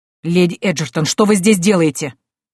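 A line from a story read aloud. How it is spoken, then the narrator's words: Barked. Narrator (Russian): рявкнул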